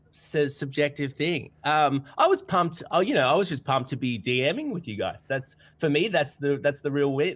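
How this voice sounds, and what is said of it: Twangy Australian accent. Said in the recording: “my twangy accent ... We big fan of Australia.”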